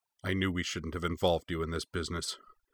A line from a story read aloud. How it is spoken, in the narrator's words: Kenzo muttered to Sokka